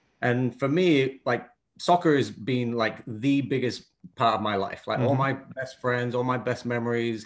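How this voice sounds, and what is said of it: European accent, non-American English. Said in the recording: “You may hear from the accent, like a lot of the coaches around here, I guess. I didn't grow up in the US. I grew up in Europe.”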